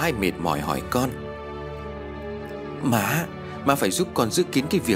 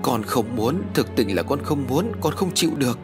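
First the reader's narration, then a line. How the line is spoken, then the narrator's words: Whimpering, on the verge of tears. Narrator (Vietnamese): Mỹ Lan mếu máo nói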